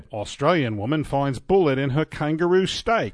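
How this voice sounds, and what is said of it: Put-on Australian accent. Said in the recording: “My Australian accent? ... That was a little better.”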